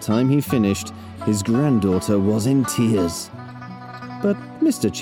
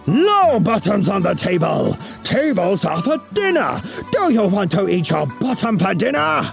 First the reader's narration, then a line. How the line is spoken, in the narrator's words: he roared